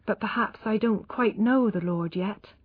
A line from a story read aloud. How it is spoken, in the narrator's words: stopped suddenly and murmured